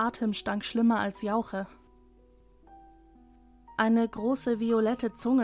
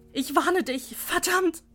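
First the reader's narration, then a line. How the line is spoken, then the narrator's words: Scream. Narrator (German): schrie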